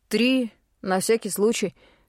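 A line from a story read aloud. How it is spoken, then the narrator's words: Calm. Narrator (Russian): спокойно ответил Тим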